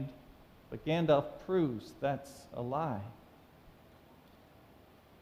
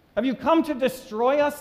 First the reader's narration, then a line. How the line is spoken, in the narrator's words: demon cried